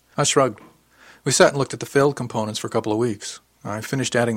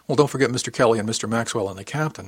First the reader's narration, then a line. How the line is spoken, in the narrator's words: I said